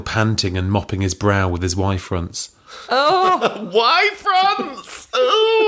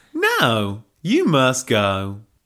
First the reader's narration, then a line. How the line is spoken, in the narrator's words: drawled Helga